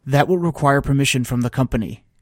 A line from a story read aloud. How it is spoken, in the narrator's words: said quickly